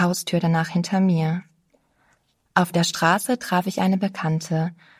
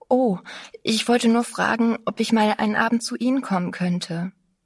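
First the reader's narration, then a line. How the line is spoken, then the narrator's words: Breathless. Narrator (German): sagte ganz atemlos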